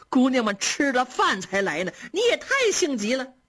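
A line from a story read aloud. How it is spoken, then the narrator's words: Servants laughing. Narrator (Chinese): 这些丫鬟婆子都笑着说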